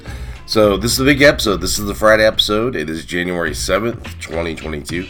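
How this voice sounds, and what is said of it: Congested, sick-sounding voice. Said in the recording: “I'm dealing with cold this week, so you guys gotta deal with my cold because I cannot talk in a normal voice.”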